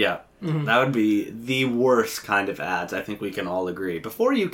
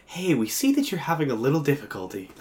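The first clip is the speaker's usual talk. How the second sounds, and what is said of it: Very seductive voice. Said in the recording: “in a very seductive voice.”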